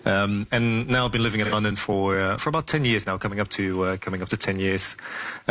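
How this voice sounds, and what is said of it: Slight Dutch accent. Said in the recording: “born and raised in the Netherlands, actually. You can probably still hear some of the accent”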